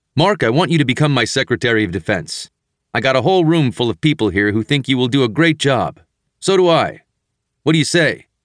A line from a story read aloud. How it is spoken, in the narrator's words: as he spoke loudly into the phone, the president said